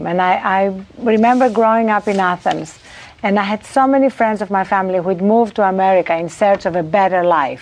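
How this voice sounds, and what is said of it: Non-native immigrant accent. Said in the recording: “as an immigrant to this country, you know, this accent is for real”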